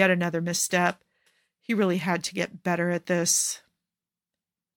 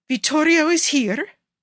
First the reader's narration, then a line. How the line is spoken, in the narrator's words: Cesare yelps in shock